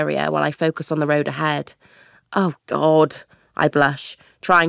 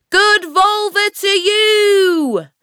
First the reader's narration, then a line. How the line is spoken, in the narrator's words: Annie screams into the wind